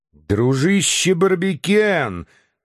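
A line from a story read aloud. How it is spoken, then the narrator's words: Exclamation. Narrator (Russian): воскликнул Мишель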